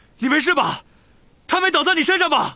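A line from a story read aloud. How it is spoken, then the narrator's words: Shouting. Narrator (Chinese): 塞德里克叫道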